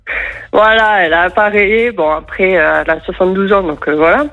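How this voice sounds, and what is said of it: Northern French accent. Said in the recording (French): “t'as un accent qui ne me fait pas penser à l'accent de l'Aveyron. ... je suis originaire du Nord”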